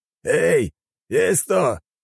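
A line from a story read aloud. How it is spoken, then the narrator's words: Shout. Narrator (Russian): крикнул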